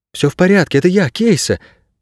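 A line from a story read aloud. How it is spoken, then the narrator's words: Timid babbling. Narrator (Russian): пролепетала она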